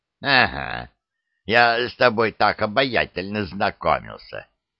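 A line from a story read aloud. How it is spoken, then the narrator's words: Snorting old man. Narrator (Russian): хмыкнул дед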